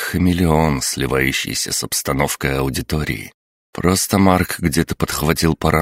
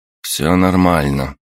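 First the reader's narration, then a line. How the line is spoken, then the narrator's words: Dry. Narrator (Russian): сухо ответил Ярослав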